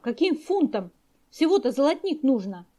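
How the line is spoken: Laughing helplessly. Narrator (Russian): Князь … зайдясь от хохота

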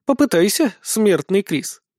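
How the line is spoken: Purring. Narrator (Russian): промурлыкала

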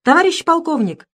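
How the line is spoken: Tankman shouting from breach. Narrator (Russian): закричал танкист из пролома

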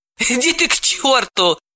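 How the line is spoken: Laughing. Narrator (Russian): рассмеялась Далила

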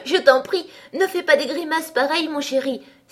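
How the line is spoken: Exclaimed. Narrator (French): s'écria-t-elle

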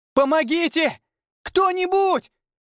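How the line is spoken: Hysterical scream. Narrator (Russian): Истерично закричала девушка

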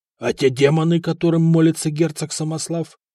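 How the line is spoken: Astonished exclamation. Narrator (Russian): в изумлении воскликнул Приск

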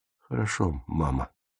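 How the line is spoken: Quiet. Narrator (Russian): тихо сказал он

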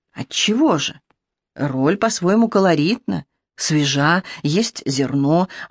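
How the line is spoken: Whispered reply. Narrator (Russian): аналогичным шепотом ответила Берта

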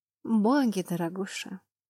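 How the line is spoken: Sad wry chuckle. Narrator (Russian): Она грустно усмехнулась

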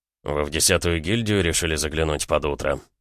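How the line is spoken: Wry snort. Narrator (Russian): хмыкнул Гаранин

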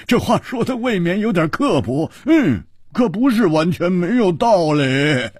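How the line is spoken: Loud laughter. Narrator (Chinese): 胡铁花大笑

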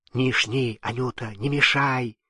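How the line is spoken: Whisper. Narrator (Russian): шепнула Власьевна

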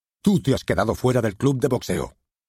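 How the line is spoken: Old man's sharp shout. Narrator (Spanish): gritó tajante el anciano de Bratislava

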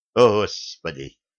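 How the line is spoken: Shady figure muttering. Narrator (Russian): пробормотала темная личность

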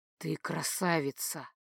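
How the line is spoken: Hoarse breathy exhale. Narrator (Russian): хрипло выдохнул Дан

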